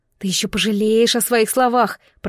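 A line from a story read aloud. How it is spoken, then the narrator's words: Hissed. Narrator (Russian): прошипела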